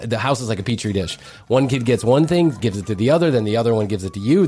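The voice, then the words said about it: Sick, under-the-weather voice. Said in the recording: “I'm a smidge under the weather ... As you can probably hear in my voice”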